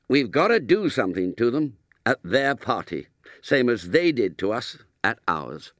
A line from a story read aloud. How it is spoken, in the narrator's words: said Ginger firmly